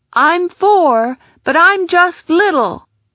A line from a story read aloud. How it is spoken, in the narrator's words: shouted back